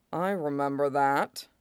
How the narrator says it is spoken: Tobirama says icily

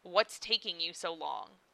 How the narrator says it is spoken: half snorts

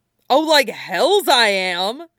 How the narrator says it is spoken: snaps Puddingfoot

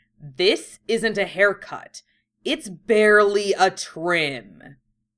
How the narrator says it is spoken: Yusuke growled

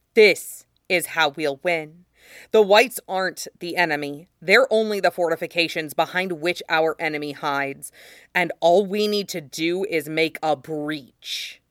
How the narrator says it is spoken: he said fiercely

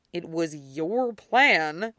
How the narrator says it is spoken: Derek grunts

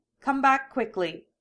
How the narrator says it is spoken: she orders, and the tone almost manages to hide how her voice is trembling

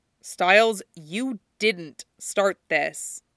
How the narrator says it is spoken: Tom says firmly

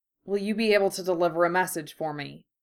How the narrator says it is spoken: he asked

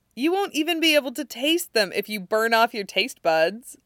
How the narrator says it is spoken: Allison laughs and says

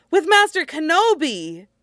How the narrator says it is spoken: the boy says brightly

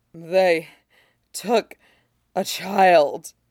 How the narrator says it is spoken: she pants

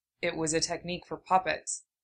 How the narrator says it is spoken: Kankuro muttered, broad shoulders tight

